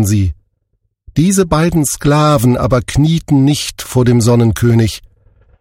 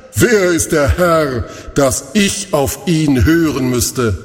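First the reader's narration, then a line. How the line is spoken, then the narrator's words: Mocking laughter. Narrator (German): er lachte dabei spöttisch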